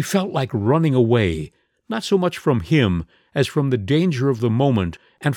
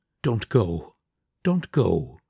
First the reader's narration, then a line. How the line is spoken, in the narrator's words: the Baron pleaded in a whisper